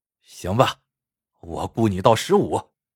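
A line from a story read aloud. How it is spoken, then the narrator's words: Reluctant, through gritted teeth. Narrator (Chinese): 他只好咬了咬牙，说道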